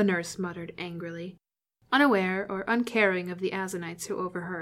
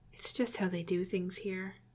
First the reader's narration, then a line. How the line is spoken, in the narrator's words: Jim muttered, mostly for Spock's benefit